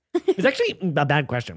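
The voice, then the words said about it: Imitates another person's voice. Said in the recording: “Was that a good Ben Shapiro impression? ... A terrible Ben Shapiro.”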